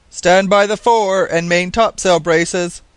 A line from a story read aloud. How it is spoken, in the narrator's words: shouted the captain